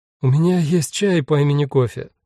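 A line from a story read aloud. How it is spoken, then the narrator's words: Speaking through laughter. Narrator (Russian): сквозь смех сказала Тари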